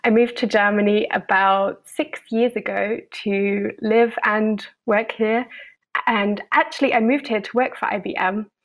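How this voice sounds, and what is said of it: British English accent. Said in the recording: “I'm originally from the UK, as you might tell from my accent.”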